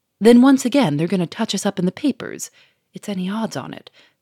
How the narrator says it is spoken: said Monsieur Fourmeret gloomily

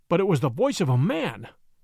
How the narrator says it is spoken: cried

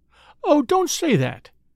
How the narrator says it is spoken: pleaded the lady

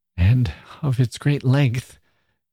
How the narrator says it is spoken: gasped Mrs

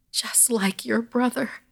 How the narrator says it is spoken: Gran sobbed at my mother

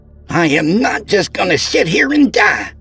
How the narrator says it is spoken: she blurted out

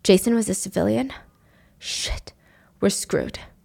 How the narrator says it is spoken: Kevin mutters

